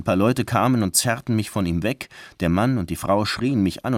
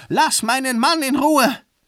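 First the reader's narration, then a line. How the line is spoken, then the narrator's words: Screaming. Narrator (German): Sie schrie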